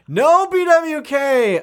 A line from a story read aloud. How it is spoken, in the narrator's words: I shouted